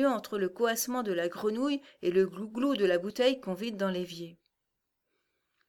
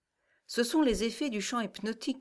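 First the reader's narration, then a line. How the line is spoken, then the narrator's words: Grumbling. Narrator (French): grommela Tinky Winky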